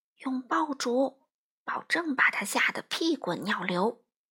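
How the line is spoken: Lowered voice. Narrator (Chinese): 他 压低声音说

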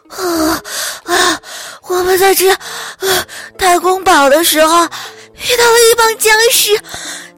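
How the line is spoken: Breathless. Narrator (Chinese): 他气喘吁吁地说

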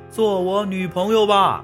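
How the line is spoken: Loud. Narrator (Chinese): 大声的对刘蒙说

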